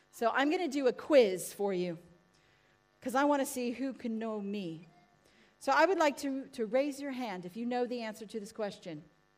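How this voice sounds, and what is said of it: American accent. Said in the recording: “my voice sounds a bit funny because I wasn't born in England ... how did you all know that I was born in America? ... Well, my accent.”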